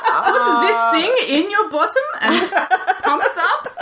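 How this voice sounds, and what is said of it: Put-on foreign accent. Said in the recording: “Only ... can do that accent.”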